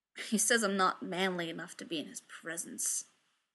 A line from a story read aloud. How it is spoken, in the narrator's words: Eugene muttered